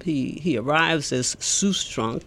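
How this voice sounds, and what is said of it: Bad put-on German accent. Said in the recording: “I say that in my very bad German accent”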